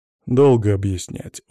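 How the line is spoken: Heavy sigh. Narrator (Russian): он тяжело вздохнул

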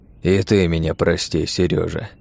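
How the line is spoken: Sighing. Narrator (Russian): вздохнул князь

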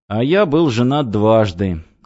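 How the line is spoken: Sad. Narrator (Russian): грустно сказал Давид

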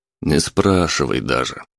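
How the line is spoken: Gloomy reply. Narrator (Russian): мрачно ответил Сергейцев

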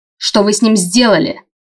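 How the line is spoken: Growled. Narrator (Russian): рыкнула я

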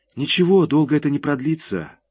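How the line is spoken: Sigh. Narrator (Russian): вздохнул я

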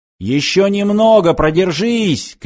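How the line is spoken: Shouted. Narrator (Russian): крикнул Данила

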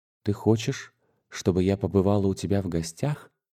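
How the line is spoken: Whisper. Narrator (Russian): шепнула Юлия Николаевна

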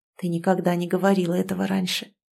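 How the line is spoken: Whispered against lips. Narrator (Russian): прошептал в губы

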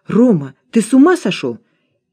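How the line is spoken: Exclaimed. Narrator (Russian): воскликнула

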